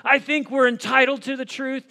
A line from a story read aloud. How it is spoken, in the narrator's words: And Tom Cruise screams back